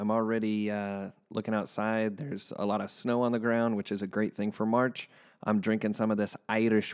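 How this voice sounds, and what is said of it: Usual voice. Nothing is said of it.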